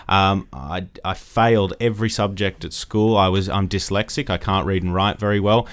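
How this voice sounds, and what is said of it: Australian accent. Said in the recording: “I grew up in Australia, as you can probably tell from my accent.”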